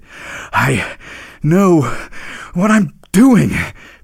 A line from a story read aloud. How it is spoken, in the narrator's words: panted the reindeer